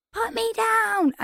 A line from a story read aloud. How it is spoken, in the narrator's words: And I screamed